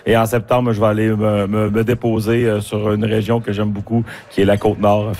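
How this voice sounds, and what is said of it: Strong Saguenay Quebec French accent. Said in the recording (French): “vient du Saguenay-Lac-Saint-Jean ... Je vois que vous appuyez l'accent”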